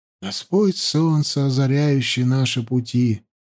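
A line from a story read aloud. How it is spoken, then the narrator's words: Silent whisper. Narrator (Russian): беззвучно шептал он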